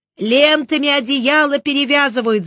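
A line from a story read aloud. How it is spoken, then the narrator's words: Yelling boy. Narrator (Russian): заорал Кирюшка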